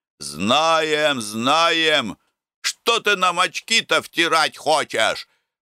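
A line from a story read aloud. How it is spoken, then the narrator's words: Crowd shouting. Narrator (Russian): кричали присяжные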